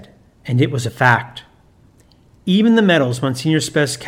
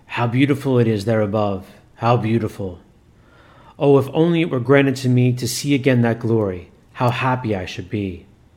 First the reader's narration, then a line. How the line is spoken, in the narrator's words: the evil spirit sighed